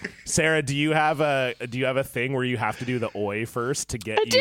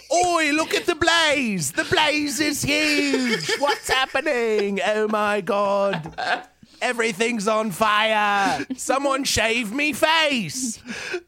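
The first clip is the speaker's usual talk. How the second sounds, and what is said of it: Unconvincing put-on accent. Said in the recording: “That was not even a good accent.”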